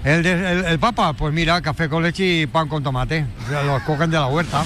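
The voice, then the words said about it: Put-on Catalan accent. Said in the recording (Spanish): “tiene acento catalán ... Me encanta que tenga el Papa acento catalán”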